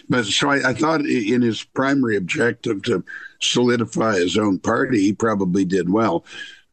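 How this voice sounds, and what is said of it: Slightly hoarse voice. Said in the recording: “I'm slightly hoarse because I'm recovering from COVID.”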